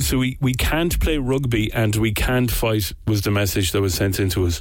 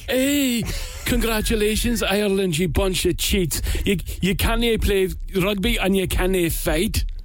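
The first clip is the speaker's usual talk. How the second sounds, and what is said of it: Put-on Scottish accent. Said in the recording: “I'll do it in my absolute worst Scottish accent that I can possibly do ... This is going to be Indian ... it's Billy Connolly ... That was quite good ... your Scottish accent”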